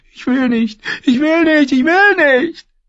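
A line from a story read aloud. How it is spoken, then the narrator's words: Sobbing. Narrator (German): Lollis klammerte sich an ihre Zofe und schluchzte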